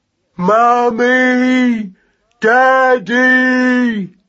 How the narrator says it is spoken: yelled Magnus to the skies above

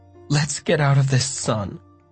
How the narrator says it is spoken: Mom groaned

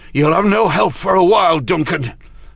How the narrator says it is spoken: said, panting from exertion

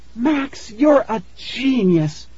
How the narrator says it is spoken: Tara cried

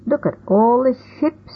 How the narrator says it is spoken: I cried

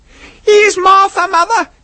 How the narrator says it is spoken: cried the young Cratchits

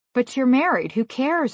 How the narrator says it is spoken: I whispered

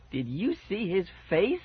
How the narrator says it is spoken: I yelped happily

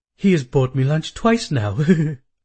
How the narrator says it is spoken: said, giggling like a schoolgirl

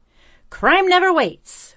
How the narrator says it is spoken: Winky exclaimed

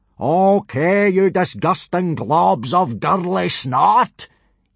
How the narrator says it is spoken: yelled Gobber, in a bellow so loud it could be heard several miles away

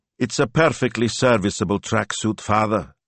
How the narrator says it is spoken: he said coldly

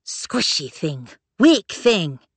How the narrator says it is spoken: said a woman's snarling voice

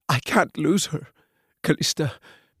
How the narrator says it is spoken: croaked, fresh tears filling his eyes

